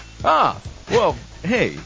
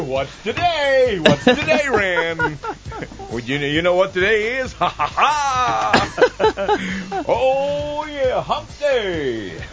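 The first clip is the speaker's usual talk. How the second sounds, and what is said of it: Impression of the Geico hump-day camel. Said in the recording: “my impression of that camel walking through the... walking through the office on the Geico commercial”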